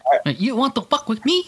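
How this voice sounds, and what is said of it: Weak put-on Vietnamese accent. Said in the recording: “I think you need to practice more a little bit. ... My Vietnamese accent. Not so good.”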